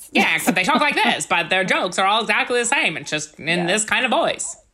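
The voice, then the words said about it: Transatlantic, slightly British old-movie voice. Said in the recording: “Kind of transatlantic, a little bit British for some reason ... That's my Katharine Hepburn impression.”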